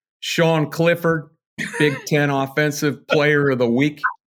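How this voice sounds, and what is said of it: Imitates another person's voice. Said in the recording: “I've got an impersonation. ... he's pretty good at James Franklin because he's got a very distinct way of saying some words and his mannerisms.”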